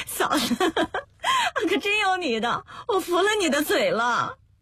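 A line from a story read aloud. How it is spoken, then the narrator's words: Laughing heartily. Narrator (Chinese): 乐爆了，笑得鼻子都皱巴了 说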